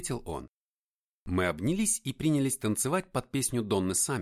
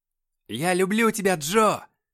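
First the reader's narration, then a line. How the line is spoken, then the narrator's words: Drunken yelling. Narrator (Russian): пьяно орал я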